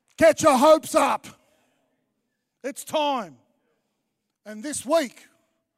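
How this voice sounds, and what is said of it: Yelling loudly. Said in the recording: “I'm yelling.”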